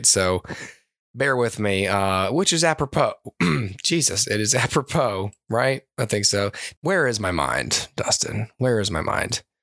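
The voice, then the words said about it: Strained, worn-out voice. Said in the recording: “my voice is a little shot tonight”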